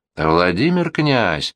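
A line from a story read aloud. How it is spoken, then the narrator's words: Weary lone voice behind wall. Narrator (Russian): устало сдавал высоты одинокий голос за стеною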